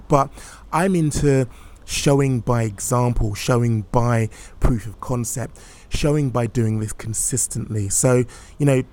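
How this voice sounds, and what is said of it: Excited, enthusiastic speaking voice. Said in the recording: “which you can hear in my voice, the excitement in my voice”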